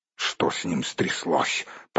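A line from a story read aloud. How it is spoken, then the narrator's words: Grumbling. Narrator (Russian): проворчал Торин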